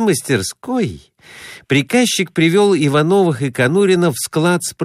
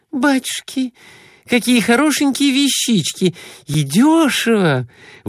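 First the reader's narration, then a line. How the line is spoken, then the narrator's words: Exclamation. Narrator (Russian): воскликнула она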